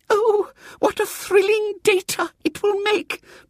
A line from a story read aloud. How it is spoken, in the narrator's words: breathed little Miss Simpke